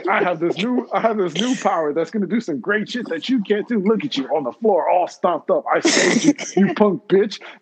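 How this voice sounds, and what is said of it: Vegeta cartoon character impression. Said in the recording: “best Vegeta impersonation”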